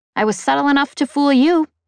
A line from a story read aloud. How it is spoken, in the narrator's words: I snapped, projecting the thoughts at her